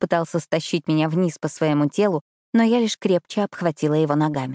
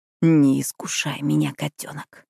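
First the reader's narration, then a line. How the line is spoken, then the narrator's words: Growl. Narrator (Russian): прорычал он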